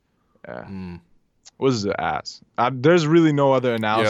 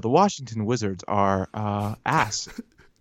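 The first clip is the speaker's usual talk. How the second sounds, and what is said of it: Mock public-radio announcer voice. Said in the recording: “put on my NPR voice ... This is the voice you use at your accounting job.”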